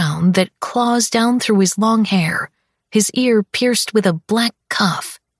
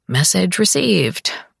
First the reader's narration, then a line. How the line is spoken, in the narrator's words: I mutter